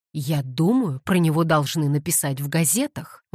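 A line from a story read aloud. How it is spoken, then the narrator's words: Exclamation. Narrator (Russian): воскликнул другой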